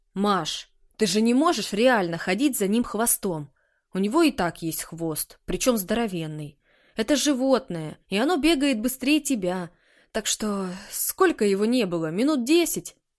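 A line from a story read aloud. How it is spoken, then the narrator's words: Very confident pronouncement. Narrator (Russian): изрек очень уверенным тоном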